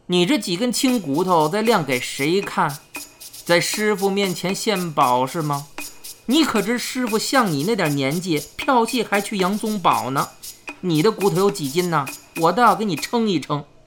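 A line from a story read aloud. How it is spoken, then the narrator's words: Cold sneer. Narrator (Chinese): 冷笑道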